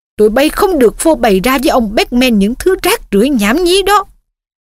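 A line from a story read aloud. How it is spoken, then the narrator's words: Hiss. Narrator (Vietnamese): Percy rít lên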